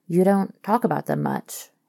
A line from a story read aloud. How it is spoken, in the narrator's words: he murmurs